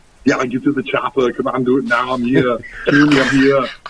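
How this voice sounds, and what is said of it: Arnold Schwarzenegger impression. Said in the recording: “I started the Arnold accent way back when I was a kid”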